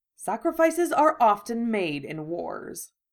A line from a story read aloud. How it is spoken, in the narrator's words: Draco said dryly